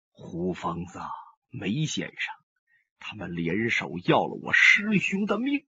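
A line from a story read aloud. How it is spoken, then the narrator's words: Low, deep voice. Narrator (Chinese): 上官金鸿声音低沉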